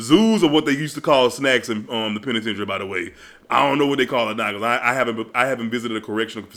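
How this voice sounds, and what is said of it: Usual voice. Nothing is said of it.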